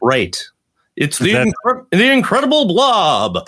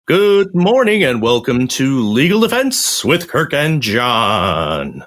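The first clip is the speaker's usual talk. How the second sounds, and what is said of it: Commanding vintage announcer voice. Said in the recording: “that was really commanding, sort of like announcer voice from, I don't know, maybe like a 1960s sci-fi movie.”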